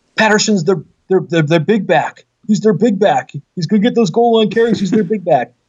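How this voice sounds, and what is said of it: Imitates a sports announcer's voice. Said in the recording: “in my best Al Michaels voice.”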